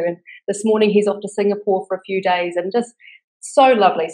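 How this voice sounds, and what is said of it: New Zealand accent. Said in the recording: “Your charming accent ... I thought I heard a New Zealand accent there.”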